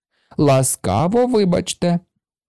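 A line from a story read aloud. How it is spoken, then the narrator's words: Laughing. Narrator (Ukrainian): засміялася вона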